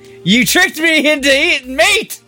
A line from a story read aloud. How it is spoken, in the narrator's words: It yelled in furry